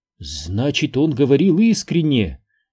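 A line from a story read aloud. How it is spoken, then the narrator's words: Amazed exclamation. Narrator (Russian): изумленно воскликнула Виерта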